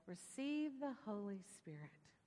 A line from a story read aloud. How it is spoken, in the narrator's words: breathed on them and said